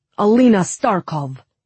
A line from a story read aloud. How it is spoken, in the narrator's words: he said tightly